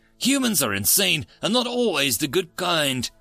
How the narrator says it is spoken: grumbled the Rohan

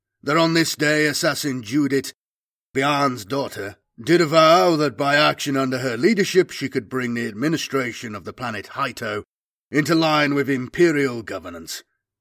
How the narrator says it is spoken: he intoned

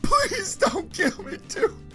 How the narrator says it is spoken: he sobbed

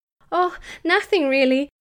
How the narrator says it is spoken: said Gemma, trying to make her giggle sound natural

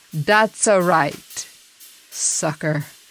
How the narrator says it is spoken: Gotti chuckled

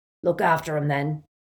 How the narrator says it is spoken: said Aberforth gruffly

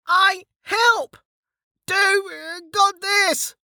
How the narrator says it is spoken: shouted with confidence, his face half-turned

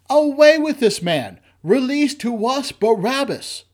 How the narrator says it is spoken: they all cried out together, saying

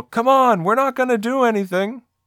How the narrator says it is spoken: Shake yells to Carl

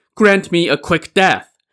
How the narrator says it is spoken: Song Jiang surrendered, shouting

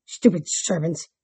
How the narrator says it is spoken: muttered

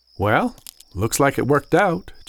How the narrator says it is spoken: Jacob said

